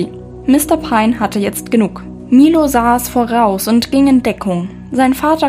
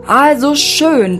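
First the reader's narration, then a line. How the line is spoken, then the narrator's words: Thundering. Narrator (German): donnerte Mr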